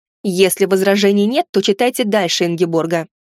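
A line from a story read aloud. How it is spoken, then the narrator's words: Said angrily. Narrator (Russian): зло сказал я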